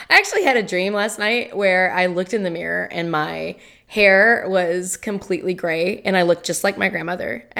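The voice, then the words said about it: Raspy, rough voice. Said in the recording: “my voice is crap ... that's the sexy ... voice ... I'm Marge Simpson”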